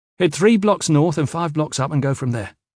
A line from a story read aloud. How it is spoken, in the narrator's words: Kip said quickly, flushing